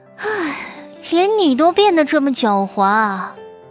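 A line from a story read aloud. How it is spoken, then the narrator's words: Tired sigh after laughing. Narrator (Chinese): 笑得累了，他忽然叹了口气，说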